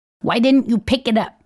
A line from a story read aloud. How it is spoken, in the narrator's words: asks fiercely